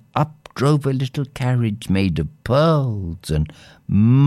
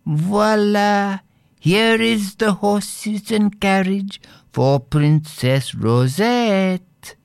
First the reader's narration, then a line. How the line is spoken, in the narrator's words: a little jockey called out in a silvery voice